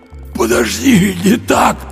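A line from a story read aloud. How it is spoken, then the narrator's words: Hoarse wheeze. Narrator (Russian): просипел Андрей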